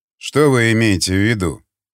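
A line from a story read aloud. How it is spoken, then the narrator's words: Calm question. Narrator (Russian): спокойно спросил старшина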